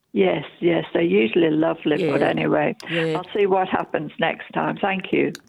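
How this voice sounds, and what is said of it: English accent. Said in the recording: “your accent's so lovely, it's English, isn't it? ... It is. ... I can't get rid of it.”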